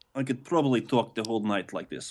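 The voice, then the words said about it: Fake but convincing Russian accent. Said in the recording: “you're getting your Russian accent down pretty good ... your fake, but very, could, very, very, very close Russian accent”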